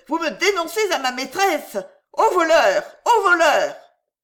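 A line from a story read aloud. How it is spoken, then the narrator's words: Shouting. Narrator (French): lui cria-t-elle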